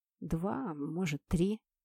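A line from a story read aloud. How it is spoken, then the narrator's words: Uncertain young man. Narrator (Russian): неуверенно сказал парень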